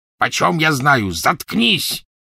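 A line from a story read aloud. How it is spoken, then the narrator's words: Gruff bark. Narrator (Russian): рявкнул грубый голос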